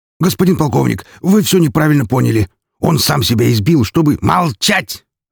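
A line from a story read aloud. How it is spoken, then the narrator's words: Barked angrily. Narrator (Russian): Рявкнул на следователя офицер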